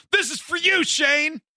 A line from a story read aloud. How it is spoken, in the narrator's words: our buddy, the one who had a girlfriend, to yell out